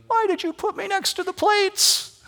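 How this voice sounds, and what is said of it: Playful voice of a talking bowl. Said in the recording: “my best bowl impersonation”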